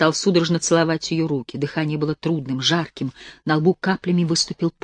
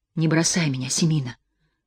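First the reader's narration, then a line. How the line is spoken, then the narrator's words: Hoarse pleading. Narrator (Russian): хрипло умолял Егор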